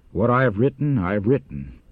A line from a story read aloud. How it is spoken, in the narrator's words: He replied coldly